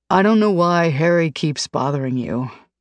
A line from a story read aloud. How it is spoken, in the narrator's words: sighs